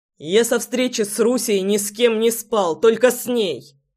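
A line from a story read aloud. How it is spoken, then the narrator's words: Barked retort. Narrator (Russian): Рявкнул в ответ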